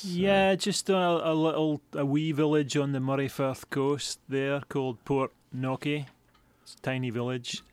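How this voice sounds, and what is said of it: Scottish accent. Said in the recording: “I hear a bit of a brogue in the accent there. I think you must hail from up in Scotland.”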